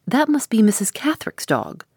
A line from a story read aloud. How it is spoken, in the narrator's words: cried the housekeeper